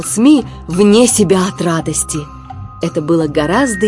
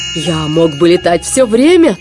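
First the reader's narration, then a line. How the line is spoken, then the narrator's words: Laughing loudly. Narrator (Russian): расхохотался СМИ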